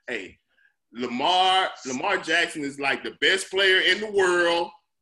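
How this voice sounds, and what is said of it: Imitates another person's voice. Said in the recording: “I'm doing the Joe Gibbs impersonation”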